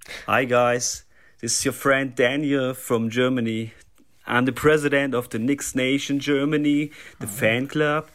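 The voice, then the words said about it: German-accented English. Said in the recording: “doesn't it sound like a fake German accent?”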